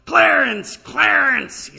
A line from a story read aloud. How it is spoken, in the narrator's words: This black pastor would yell, holler